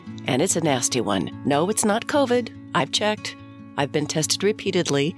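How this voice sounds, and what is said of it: Voice sounding sick with a cold. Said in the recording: “my voice sounds different, because I have a cold”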